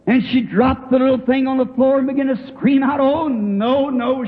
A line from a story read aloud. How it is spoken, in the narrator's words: she screamed